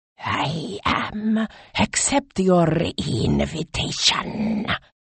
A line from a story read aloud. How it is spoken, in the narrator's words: hissed the snake